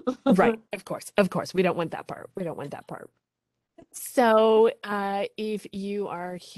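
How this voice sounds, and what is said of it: Usual voice. Nothing is said of it.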